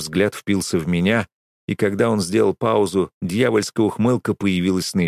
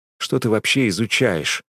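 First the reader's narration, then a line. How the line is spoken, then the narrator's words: Muttered. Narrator (Russian): пробормотал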